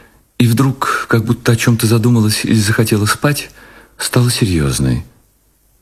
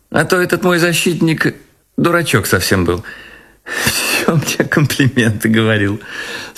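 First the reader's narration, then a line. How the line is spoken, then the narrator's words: Speech then laughter. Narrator (Russian): сказала она и засмеялась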